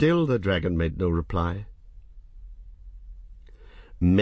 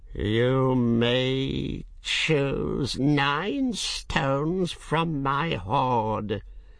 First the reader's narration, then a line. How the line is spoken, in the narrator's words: said at last, his voice hissing and whining in his long jaws